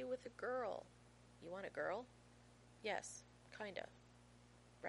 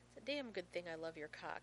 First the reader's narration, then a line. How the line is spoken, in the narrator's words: he says firmly